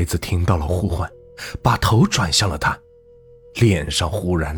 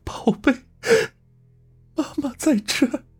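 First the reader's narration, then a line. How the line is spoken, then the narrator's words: Tearful cry. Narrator (Chinese): 他带着哭腔呼喊道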